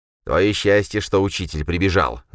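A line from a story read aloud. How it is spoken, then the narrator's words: Growled. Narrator (Russian): зарычал Юрген, пытаясь вырваться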